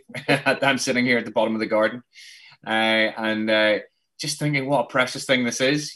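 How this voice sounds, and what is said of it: Luton English accent. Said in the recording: “As you can tell from the accent, Luton, obviously from Luton”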